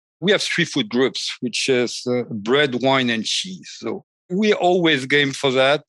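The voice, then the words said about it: French-accented English. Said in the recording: “You know, I'm French, and my accent”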